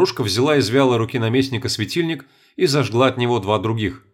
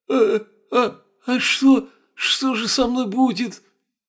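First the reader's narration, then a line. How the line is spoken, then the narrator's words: Frightened, trembling. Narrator (Russian): Испуганно затрясся Мараха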